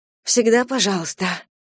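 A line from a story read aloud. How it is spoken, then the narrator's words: Breathed out. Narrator (Russian): выдохнула я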